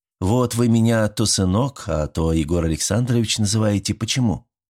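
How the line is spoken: Embarrassed, heavy sigh. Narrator (Russian): Степанида смутилась, тяжело вздохнула

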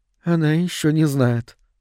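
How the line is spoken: Quiet. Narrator (Russian): тихо сказала Мерида

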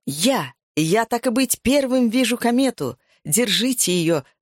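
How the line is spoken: Shouting at full strength. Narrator (Russian): закричал я, что было мочи

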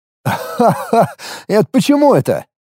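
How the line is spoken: Burst of laughter. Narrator (Russian): Я аж хохотнул

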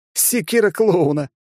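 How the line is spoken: Laughing cat. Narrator (Russian): рассмеялся кот

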